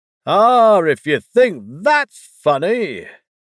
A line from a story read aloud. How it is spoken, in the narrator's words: the boar exclaimed